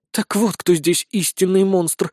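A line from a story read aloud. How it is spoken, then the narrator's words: Sighing. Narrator (Russian): вздохнула Безос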